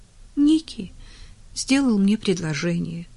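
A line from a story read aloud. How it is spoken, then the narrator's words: Exhausted sigh. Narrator (Russian): вздохнула Уитни, слишком измученная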